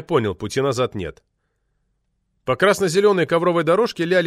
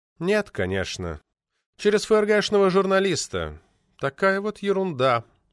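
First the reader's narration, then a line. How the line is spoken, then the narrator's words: Sighed. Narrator (Russian): вздохнул Попекян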